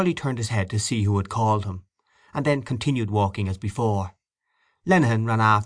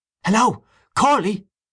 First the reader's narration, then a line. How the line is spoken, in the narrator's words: he cried again